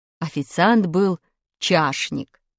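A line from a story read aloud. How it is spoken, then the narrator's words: Plain. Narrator (Russian): ответила учительница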